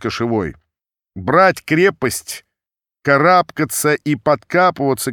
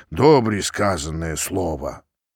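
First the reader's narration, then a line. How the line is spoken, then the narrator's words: Quiet old men. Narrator (Russian): самые седые тихо сказали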